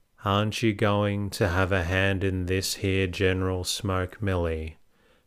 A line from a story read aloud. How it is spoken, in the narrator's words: said Mr